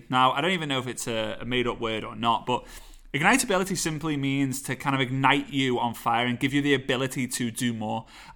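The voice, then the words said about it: Scouse accent. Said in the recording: “my Scouse accent”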